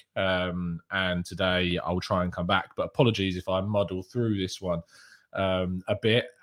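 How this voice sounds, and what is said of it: Strained voice from sore throat. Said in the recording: “It is just my throat that's the issue with... It's just my throat... give my voice a break”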